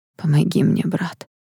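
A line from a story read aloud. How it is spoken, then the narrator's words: Exhausted, pleading voice. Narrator (Russian): сказал Эштон измученным голосом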